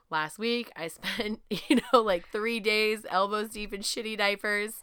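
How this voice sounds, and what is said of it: Sick, congested-sounding voice. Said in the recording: “why I sound the way I do instead of my usual regular raspy voice, instead of my ultra raspy voice today, I have a fucking cold”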